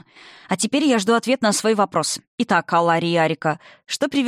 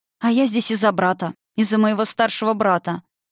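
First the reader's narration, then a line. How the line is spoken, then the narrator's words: Sad smiling voice. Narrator (Russian): грустно улыбнулась Арика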